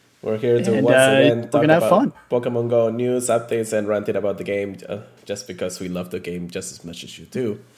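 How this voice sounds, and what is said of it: Congested, stuffy nasal voice. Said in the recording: “as you can hear from my voice ... My nose is super congested right now”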